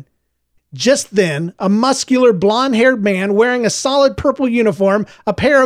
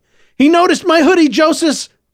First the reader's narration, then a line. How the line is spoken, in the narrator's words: Clovis shouted